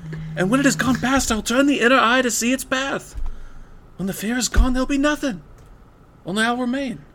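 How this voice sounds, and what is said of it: Imitates another person's voice. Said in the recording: “a good impression ... with Mark Wahlberg out of the way”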